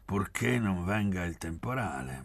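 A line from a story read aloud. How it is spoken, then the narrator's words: Grumbled. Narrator (Italian): brontolò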